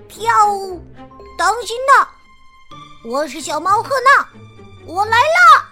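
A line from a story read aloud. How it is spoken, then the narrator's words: Loud cry. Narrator (Chinese): 大声叫着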